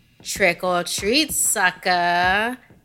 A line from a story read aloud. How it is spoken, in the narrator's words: he taunted